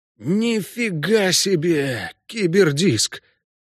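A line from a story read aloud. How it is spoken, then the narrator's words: Stunned breathless exclamation. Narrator (Russian): ошеломленно выдохнул Ламберт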